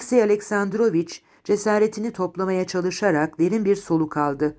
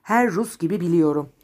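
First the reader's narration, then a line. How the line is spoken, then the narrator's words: Plain. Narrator (Turkish): dedi avukat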